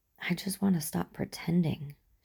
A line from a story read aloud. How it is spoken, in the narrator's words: she whispers, still a little breathless